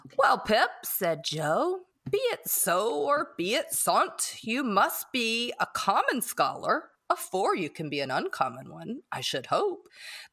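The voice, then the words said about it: Reading in Joe's character voice. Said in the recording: “in my best Joe voice”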